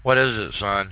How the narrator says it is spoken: he asked

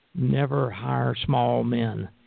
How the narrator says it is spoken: EVR would mumble

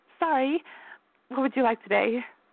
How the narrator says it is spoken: Darla chuckled

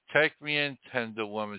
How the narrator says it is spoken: sighed the snake

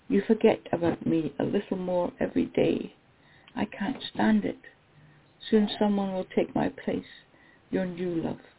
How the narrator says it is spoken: Faintly I hear

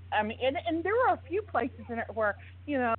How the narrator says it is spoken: I giggled

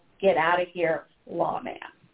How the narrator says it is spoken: a voice growled

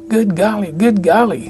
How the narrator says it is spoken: Uncle Verge yelled out

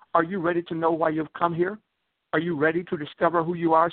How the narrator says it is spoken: she asked

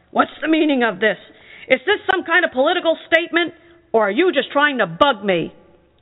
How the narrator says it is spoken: Gregor's dad was really mad and yelled

